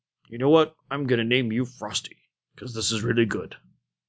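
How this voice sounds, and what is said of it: Poor impression of Arthas's voice. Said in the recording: “an absolutely horrible Arthas impersonation”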